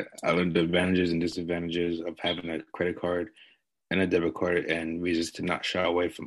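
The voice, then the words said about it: Well-spoken radio voice. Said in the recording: “Well said. Well spoken. You got a radio voice”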